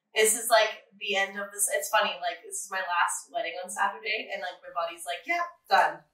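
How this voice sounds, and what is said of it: Raspy, sick-sounding voice. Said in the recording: “I'm sick. You can hear my raspy, nasty voice.”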